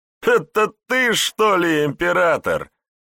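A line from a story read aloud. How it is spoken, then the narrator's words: Mocking laughter. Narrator (Russian): Расхохотался стражник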